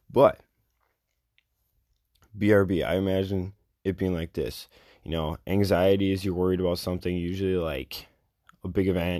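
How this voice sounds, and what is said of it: Slightly raspy voice. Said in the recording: “my voice is a little raspy ... I've been talking a little too much the last few days”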